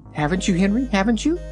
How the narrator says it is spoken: she asked anxiously

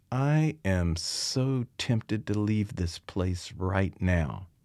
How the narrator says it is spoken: She muttered

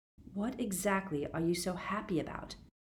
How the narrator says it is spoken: Harry asked her

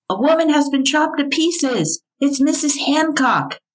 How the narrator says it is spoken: Alexander Wilkie, a night watchman, shouting

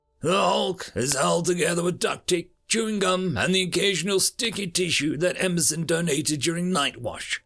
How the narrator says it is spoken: Gabriel scoffed

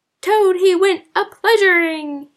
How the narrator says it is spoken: he yelled

